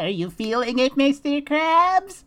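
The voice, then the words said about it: A good cartoon character voice impression. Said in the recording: “That good impression ... is the voice guy.”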